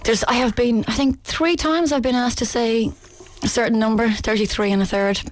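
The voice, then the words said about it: Irish accent. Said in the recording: “like the Irish person ... Oh, what's a lovely accent.”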